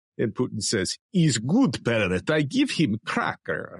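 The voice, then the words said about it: Good Russian accent imitating Putin. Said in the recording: “you do a great Russian accent.”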